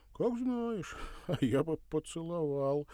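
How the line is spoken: Soft laugh. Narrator (Russian): тихо рассмеялся он

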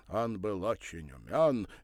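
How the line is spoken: Cheerful. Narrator (Russian): весело подхватил Пал Палыч

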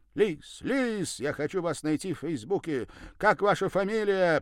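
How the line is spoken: Loud shout down street. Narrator (Russian): прокричал он на всю улицу

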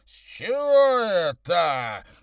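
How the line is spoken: Near roar. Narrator (Russian): почти проревел он

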